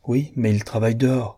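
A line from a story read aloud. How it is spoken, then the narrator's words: Plain. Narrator (French): dit Bessie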